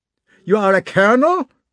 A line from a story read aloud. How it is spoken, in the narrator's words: shouted the chief of staff with a German accent, in a voice familiar to Prince Andrei